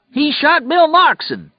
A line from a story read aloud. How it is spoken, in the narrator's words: yelled in a high, queer voice